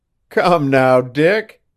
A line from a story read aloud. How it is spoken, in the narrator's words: Devant laughed